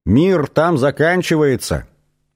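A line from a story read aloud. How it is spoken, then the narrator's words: Insistent shouting. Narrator (Russian): настойчиво кричали снарт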